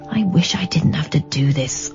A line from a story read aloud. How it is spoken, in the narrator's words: I muttered to myself